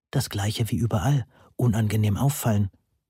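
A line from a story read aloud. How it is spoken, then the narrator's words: Helpful whispered reply. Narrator (German): flüsterte ich hilfsbereit zurück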